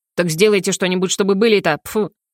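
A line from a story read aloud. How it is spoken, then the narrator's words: Grumbling. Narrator (Russian): проворчал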